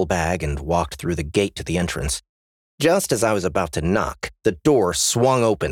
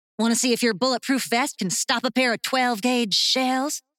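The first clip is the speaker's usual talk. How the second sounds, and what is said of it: Thick Southern accent. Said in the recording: “She had a thick, southern-fried accent.”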